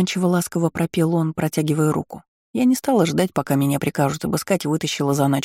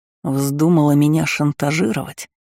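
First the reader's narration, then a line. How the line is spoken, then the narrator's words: Hissing. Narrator (Russian): прошипел Валет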